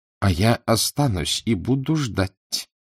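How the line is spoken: Through clenched teeth. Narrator (Russian): процедил он сквозь стиснутые зубы

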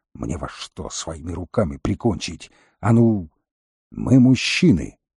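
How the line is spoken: Fierce hiss. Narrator (Russian): Волкодав свирепо прошипел

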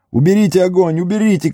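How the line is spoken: Shout. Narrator (Russian): кричал Мерри

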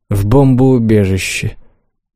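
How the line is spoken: Sighing. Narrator (Russian): вздохнула я

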